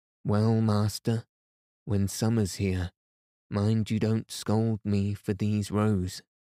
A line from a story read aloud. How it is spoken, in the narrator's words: said Vasily